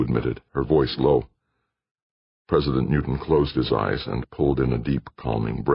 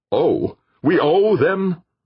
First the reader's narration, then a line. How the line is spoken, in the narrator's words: fairly shouted